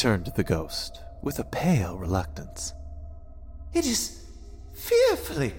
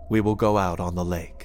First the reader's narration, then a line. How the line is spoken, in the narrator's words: said the master, firmly